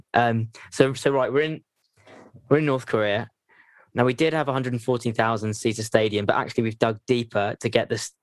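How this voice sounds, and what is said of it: Imitates a football commentator's voice. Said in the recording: “commentary ... I'll do my best Martin Tyler impression.”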